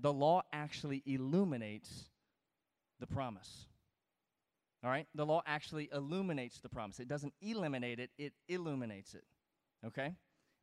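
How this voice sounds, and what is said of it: Southern American accent. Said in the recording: “I have a Southern accent ... my words can drop off”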